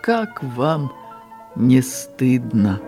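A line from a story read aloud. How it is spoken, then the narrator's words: Quiet, in his own way. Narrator (Belarusian): А Чэхаў паліцэйскаму па-свойму ціха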